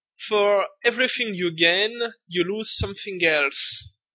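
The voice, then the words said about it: Strongly accented English. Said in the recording (French): “avec mon accent anglais de la mort qui tue”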